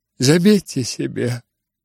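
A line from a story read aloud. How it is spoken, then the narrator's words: Hoarse, through coughing. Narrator (Russian): прохрипел сквозь кашель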